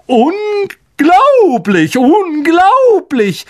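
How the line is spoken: Calling out. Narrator (German): rief er

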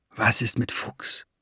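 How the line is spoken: Whispered. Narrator (German): flüsterte Jacob

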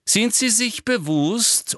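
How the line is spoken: Loud interruption. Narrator (German): unterbrach ihn Umbridge laut

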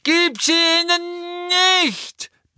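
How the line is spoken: Furious roar, beside himself. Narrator (German): brüllte Neville offenbar außer sich

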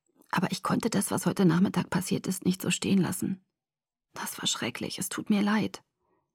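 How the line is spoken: Whisper. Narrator (German): flüsterte er

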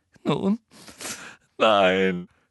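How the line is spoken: Sobbing. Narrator (German): schluchzte Hermine

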